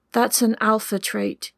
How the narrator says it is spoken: he replied

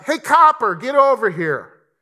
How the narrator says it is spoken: I called out

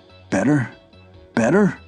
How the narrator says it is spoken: croaked old Crompton

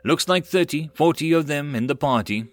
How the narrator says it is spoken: Sath called out

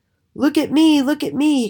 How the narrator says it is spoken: cried

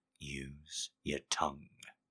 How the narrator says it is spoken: he murmured

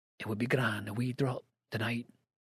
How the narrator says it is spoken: the old Scotchman before him with the whispered comment

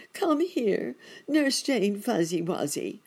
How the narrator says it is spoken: he begged

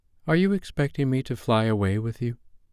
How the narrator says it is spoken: she said, faltering

